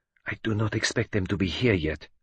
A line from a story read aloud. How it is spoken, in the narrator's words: whispered Poirot to me